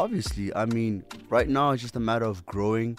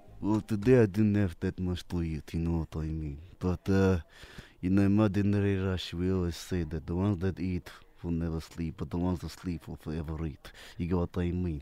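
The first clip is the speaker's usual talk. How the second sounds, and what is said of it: Put-on Russian accent. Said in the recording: “My Russian accent. ... in your best Russian accent ... your Russian accent's good. I approve. Yeah, that was good.”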